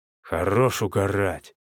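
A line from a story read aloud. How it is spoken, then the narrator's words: Displeased mumbling. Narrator (Russian): недовольно пробурчал Петя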